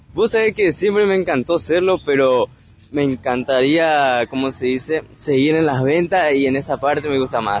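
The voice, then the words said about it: Deep radio-announcer voice. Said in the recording (Spanish): “tenés voz de locutor”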